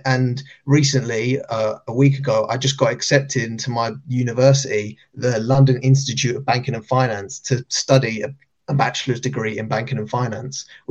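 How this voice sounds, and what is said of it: Speaks with a noticeable accent. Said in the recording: “I love your accent too”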